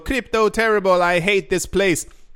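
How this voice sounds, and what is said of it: Mock Spanish-Italian accent. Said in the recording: “Not with that accent, I'm not sure what that was. It was kind of like Spanish and Italian at the exact same time.”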